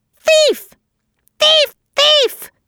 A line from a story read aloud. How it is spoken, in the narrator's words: he screamed in his harshest voice